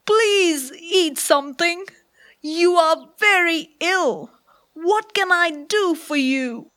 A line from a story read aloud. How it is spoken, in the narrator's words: cried